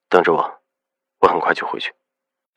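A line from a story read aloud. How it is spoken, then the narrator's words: Firm, restrained voice. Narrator (Chinese): 他的声音笃定沉敛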